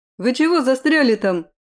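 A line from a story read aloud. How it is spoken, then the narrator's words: Distant shout. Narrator (Russian): крикнул Айвол из оврага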